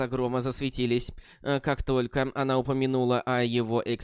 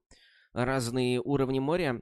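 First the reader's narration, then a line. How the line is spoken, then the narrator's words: Muttered. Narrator (Russian): пробормотала Лотос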